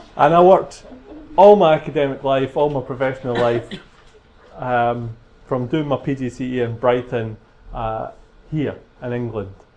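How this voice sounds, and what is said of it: Scottish accent. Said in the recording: “I'm Scottish... So this is a Scottish accent”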